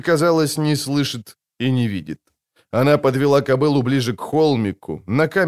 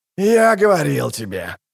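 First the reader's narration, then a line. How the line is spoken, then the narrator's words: Growled. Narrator (Russian): рычал Бонарт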